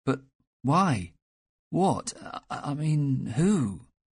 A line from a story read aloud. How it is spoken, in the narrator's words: stammered